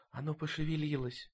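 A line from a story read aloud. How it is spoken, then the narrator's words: Breathless exclamation. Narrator (Russian): выдохнула Векки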